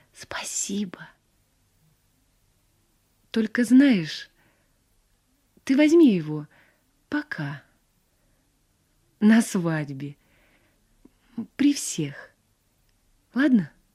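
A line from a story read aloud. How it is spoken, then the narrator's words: Whisper. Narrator (Russian): Мария шепнула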